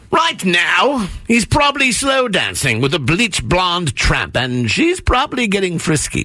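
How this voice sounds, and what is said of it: Put-on British accent. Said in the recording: “my awesome British accent”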